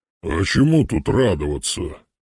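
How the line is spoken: Ghost's grumble. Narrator (Russian): проворчал призрак

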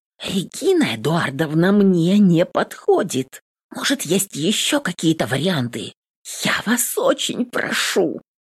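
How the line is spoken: Quiet hiss. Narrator (Russian): Шиплю тихо

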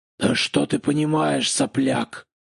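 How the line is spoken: Hoarse rasp. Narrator (Russian): прохрипел он

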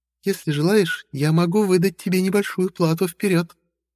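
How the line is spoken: Cooing. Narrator (Russian): проворковала

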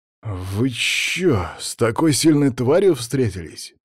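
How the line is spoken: Drawling. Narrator (Russian): протянул Даня

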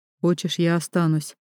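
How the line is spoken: Husband's quiet question. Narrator (Russian): тихо спрашивает муж

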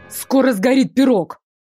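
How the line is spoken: Barked from below. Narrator (Russian): рявкнул Ашер откуда-то снизу

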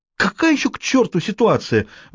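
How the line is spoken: Shrill shriek. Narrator (Russian): взвизгнула она

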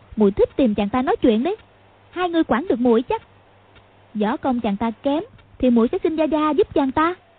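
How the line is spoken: Snapping irritably. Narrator (Vietnamese): tiếng Quách Phù gắt với huynh đệ họ Võ

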